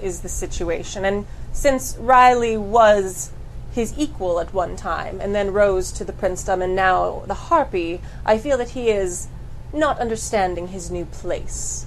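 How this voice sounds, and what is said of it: Exaggerated posh English accent. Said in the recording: “I totally changed my accent. ... Super English. ... you were like extra fancy ... Super fancy”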